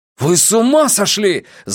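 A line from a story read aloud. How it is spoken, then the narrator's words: Yelling. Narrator (Russian): завопил Трэвис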